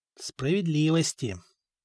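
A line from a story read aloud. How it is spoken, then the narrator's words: Barely audible whisper. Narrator (Russian): прошептал Коста едва слышно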